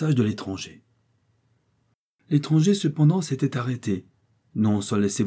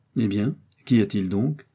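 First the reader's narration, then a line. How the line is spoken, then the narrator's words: Calm voice. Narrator (French): a-t-elle dit d'une voix tranquille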